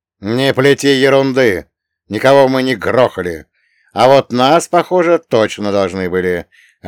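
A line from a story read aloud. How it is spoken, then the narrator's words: Barked. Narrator (Russian): рявкнул я на сеньора Сальваторе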